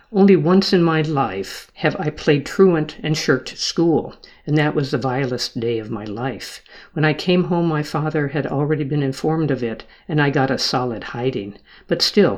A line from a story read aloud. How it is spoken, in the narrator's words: he said